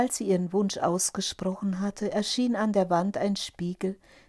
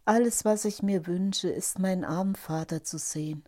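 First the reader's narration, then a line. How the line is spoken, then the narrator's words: Sighing. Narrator (German): seufzte Rosa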